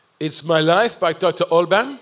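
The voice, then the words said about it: Deliberately bad Austrian accent. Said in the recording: “I'm going to do a really bad Austrian accent.”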